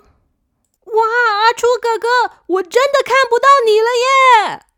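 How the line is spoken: Excited loud shout. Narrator (Chinese): 小扑忍不住大叫说

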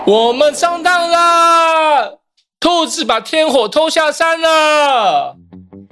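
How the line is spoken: Loud shouting from behind. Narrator (Chinese): 天人们在后面大声喊着

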